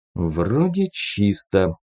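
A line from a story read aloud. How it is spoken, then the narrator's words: Muttered under breath. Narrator (Russian): пробормотал он себе под нос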